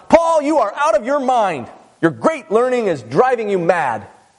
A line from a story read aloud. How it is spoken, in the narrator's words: Festus shouts